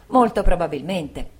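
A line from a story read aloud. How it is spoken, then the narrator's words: Exclaimed together. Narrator (Italian): entrambi esclamammo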